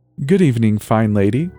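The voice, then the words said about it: Put-on posh British accent. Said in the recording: “she articulated in a particularly British voice.”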